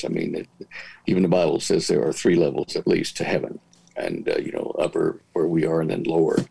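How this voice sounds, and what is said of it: Calm, measured speaking voice. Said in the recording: “You say it in a much calmer voice than me. I'm a little bit more caffeinated”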